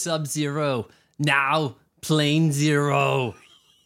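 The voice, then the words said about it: Arnold Schwarzenegger impression. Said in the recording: “that impersonation ... My Arnold's not bad. It's okay-ish, I would say.”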